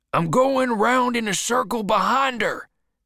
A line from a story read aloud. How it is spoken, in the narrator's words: Bill shouted back